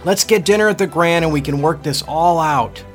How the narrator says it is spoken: hollered up

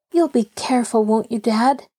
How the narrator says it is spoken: Nancy pleaded

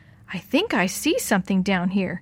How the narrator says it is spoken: Dee Dee said

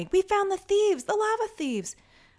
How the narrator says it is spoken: all of the children each one of them shouting

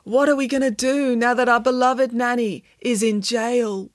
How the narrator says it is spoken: wailed Michael

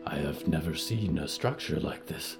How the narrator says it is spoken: Yuretsi whispered

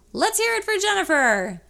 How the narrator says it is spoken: The announcer comes back on and yells

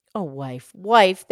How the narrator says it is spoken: the man exclaimed

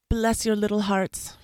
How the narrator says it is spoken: he cried

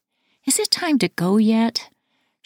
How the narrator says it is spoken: She whines every few minutes

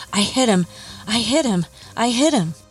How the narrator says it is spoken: turned to her friend frantically and said

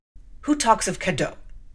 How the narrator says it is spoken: said gruffly

